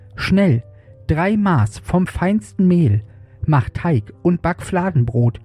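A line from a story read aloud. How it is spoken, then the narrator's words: Calling out. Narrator (German): rief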